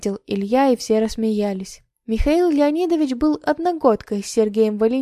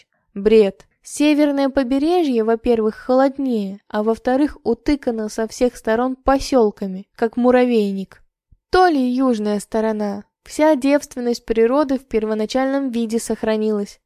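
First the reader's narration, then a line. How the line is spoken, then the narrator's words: Laughing. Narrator (Russian): рассмеялся Михаил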